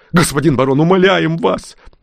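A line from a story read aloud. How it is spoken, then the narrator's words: Near-shrieking terror. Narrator (Russian): Едва не завизжали они от ужаса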